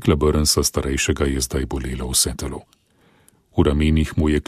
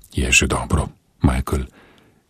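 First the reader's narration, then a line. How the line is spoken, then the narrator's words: Gentle reply. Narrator (Slovenian): je nežno odvrnil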